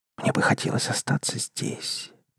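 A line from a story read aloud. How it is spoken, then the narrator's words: Whisper. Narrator (Russian): прошептала она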